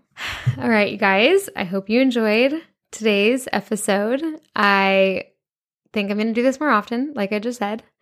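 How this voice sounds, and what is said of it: Mellow, relaxed voice. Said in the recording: “I feel like I'm very mellow today. ... My voice is just mellow.”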